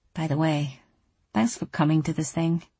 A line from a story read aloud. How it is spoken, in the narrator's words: Softly, she said